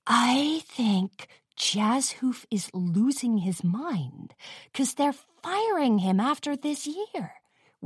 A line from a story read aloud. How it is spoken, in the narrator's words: whispered Jewel Tone